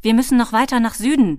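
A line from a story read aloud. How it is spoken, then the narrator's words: Calling out. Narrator (German): rief er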